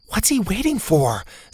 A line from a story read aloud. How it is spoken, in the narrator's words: Zeta whispered